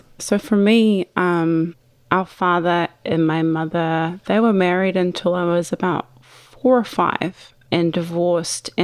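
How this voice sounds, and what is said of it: New Zealand accent. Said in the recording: “based on your accent, ... I'm assuming she was not she's not American ... New Zealand”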